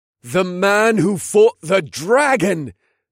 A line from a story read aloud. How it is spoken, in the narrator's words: another called out